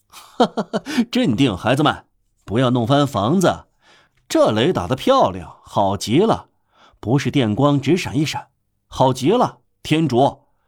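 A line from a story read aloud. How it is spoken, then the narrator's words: Fearless laughter over thunder. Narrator (Chinese): 加弗罗什 借着雷声哈哈大笑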